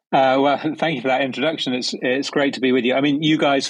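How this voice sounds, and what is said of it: London English accent. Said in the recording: “you are from London, England. So it's not just a funny bit that you're doing. That's genuinely your accent,”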